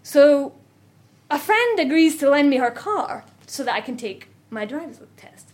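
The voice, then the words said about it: Scottish accent. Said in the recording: “You're Scottish, I'm Scottish! ... this accent, I can trade on this”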